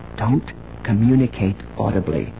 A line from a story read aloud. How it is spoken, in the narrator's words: she whispered